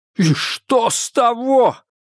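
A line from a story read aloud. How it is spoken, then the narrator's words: Shouted. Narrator (Russian): выкрикнул Адамс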